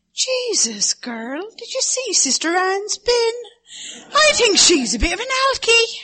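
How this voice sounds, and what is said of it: Put-on Cork Irish accent. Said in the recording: “My accent is from the Midlands in Ireland, and the Cork girls. An accent I'm going to do now is the girls who come from Cork.”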